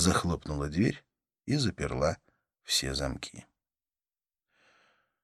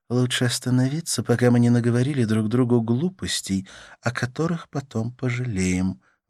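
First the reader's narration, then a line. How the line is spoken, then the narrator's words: Sigh. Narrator (Russian): вздохнула она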